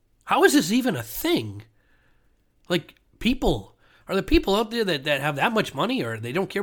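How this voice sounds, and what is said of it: Usual voice. Nothing is said of it.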